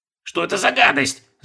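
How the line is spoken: Shrieking while struggling. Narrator (Russian): завизжал, тщетно пытаясь вырваться

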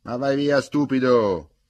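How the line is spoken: Shouted. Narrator (Italian): gli gridò

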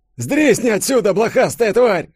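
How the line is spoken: Yelling. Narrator (Russian): заорал Йося

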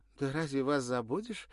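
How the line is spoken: Cheerful chirping. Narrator (Russian): весело щебетала та

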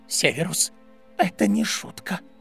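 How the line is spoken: Near whisper. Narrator (Russian): Минерва почти шептала

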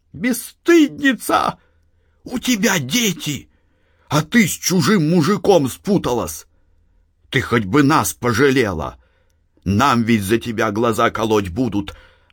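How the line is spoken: Muffled, loud sobbing. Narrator (Russian): Она уткнулась в фартук, громко всхлипывая и сморкаясь

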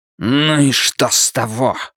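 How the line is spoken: Barked. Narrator (Russian): рявкнул невидимый вампир

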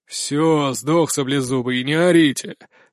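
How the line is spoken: Grumbled after them. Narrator (Russian): ворчат им вслед

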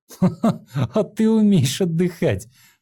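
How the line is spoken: Laughing. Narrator (Russian): рассмеялся Линхуан

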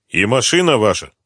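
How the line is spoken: Stern question. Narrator (Russian): строго спросил Коклюшный, не разделяя восторженного настроения своего собеседника

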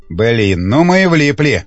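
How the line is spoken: Grumbling. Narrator (Russian): проворчал Волков

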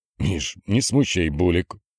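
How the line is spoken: Commanding through clenched teeth. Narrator (Russian): сквозь зубы командовал Владимир

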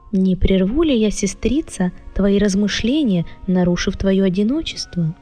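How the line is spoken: Gentle, kind. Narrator (Russian): Штейла обратилась ласково, по-доброму

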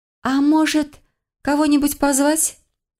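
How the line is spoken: Timid. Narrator (Russian): Робко предложила я

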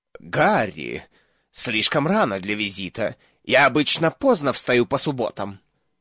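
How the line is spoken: Mumbled. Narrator (Russian): пробормотал он

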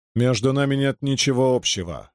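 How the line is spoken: Plain. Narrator (Russian): ответил Гальд

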